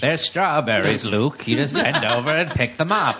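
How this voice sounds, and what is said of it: Katharine Hepburn impression. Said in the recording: “She's doing a Catherine Hepburn impression.”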